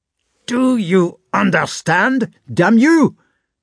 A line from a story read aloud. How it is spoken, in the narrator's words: shouted a voice